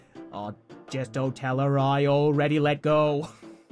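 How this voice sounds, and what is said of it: Voice made to sound far away. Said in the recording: “my voice is only sounding far away because I'm doing that thing where I make my voice sound far away.”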